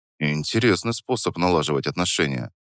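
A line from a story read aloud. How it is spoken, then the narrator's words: Quiet but clearly audible. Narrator (Russian): произнес я негромко, но так, чтобы она хорошо расслышала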